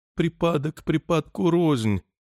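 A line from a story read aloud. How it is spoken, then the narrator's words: Said, then whimpering. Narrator (Russian): сказал Чарли и захныкал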